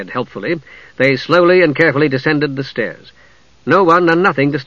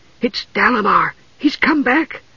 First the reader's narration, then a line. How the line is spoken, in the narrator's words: she whispered fearfully